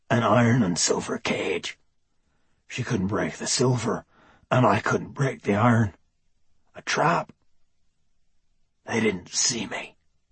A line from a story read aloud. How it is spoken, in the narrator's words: he whispered